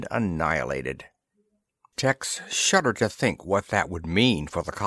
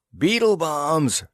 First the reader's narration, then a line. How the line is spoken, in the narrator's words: yelled Tex